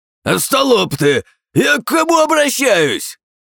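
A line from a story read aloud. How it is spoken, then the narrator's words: Shouting. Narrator (Russian): Кричал ненавистный Чоан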